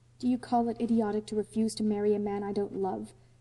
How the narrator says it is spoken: said Anne coldly, goaded to reply

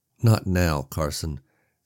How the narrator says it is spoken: Sam said wearily

